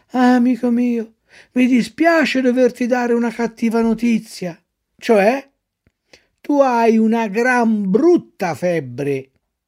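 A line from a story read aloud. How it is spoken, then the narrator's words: Sighing. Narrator (Italian): gli disse sospirando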